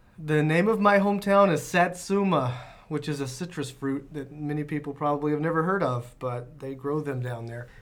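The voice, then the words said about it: Southern US twang, Alabama. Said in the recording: “You'll hear a twang coming out from time to time because I'm originally born in Lower Alabama, the Gulf Coast.”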